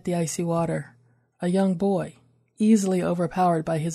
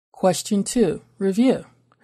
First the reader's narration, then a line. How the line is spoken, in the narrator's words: her captor said